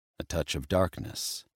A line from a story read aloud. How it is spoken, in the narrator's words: he murmured